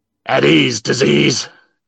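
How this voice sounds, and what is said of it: Sergeant Slaughter impression. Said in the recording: “voiced the Sarge ... Can you give us an impersonation ... It's a very practiced rendition”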